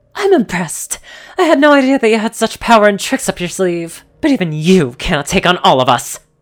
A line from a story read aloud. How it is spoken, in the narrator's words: Crystal snarled at me and said